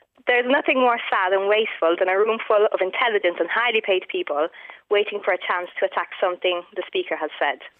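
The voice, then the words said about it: Faint Italian accent, sounds Irish. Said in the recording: “there's a little bit of it there... You sound more Irish to me... you sounded a little bit Irish”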